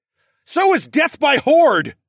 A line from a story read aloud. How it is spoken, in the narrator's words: I yelled back